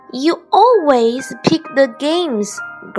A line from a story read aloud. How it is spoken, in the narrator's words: grumbled Bear